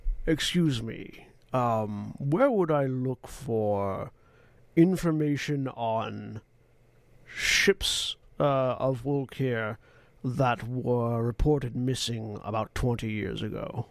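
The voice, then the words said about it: Put-on dwarven fantasy accent. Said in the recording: “in Orcish that very clearly sounds like studied Orcish, not raised Orcish ... It also has a particularly dwarven accent.”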